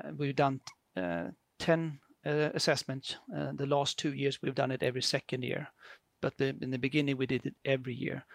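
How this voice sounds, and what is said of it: Swedish accent. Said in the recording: “as you can hear in my very beautiful accent, I'm from Sweden”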